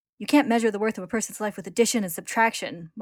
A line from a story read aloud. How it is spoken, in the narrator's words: Marco snaps